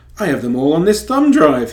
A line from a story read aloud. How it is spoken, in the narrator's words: he exclaimed